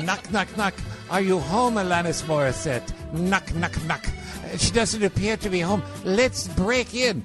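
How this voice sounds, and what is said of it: Hybrid attempted French-Canadian accent. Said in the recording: “It's a hybrid. It's a hybrid accent. That's a little hybrid. He's trying to do the French-Canadian. It's not quite full-tilt French.”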